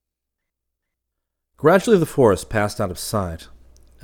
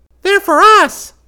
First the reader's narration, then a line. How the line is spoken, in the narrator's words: cried one of the eaglets